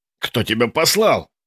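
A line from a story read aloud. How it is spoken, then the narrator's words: Shout. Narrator (Russian): выкрикнул я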